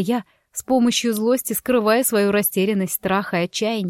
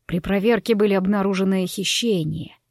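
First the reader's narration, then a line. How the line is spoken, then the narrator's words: Quiet reply. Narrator (Russian): тихо отозвался Савелл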